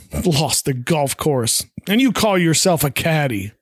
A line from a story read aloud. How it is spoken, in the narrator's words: Howe scoffs, saying